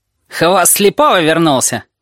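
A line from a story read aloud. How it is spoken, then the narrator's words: Shout. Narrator (Russian): крикнул Пышка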